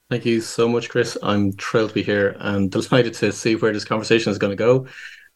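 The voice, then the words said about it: Irish Dublin accent. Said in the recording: “You've got a fantastic accent ... born and raised in Dublin in Ireland. So people can probably gather from the accent, it's slightly different.”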